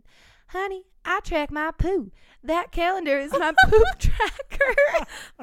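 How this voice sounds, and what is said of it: Put-on southern American accent. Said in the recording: “in a very southern accent ... again, another southern accent”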